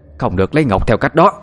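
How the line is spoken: Sudden shout, woman. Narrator (Vietnamese): bà Sò chỉ kịp hét lên

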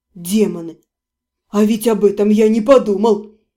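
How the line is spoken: Annoyed snort. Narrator (Russian): С досадой фыркнул Себастьян

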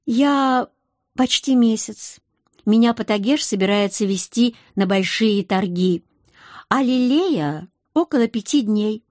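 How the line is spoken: Plain. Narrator (Russian): ответила за обеих

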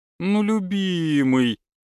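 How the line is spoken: Drawling. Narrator (Russian): протянула моя девушка

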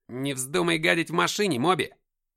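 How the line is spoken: Shout. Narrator (Russian): крикнул Джим

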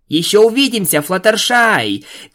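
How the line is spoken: Shouting while moving away. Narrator (Russian): крикнула Твайлайт, удаляясь

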